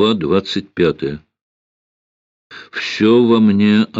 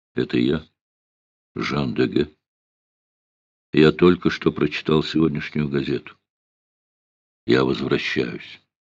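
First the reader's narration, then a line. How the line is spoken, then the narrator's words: Quiet, nearly whispered. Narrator (Russian): Тихо, чуть не шепотом, голос ответил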